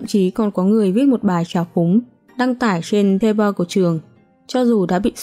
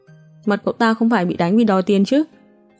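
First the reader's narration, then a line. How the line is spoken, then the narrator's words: Loud laughter. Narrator (Vietnamese): Có người cười to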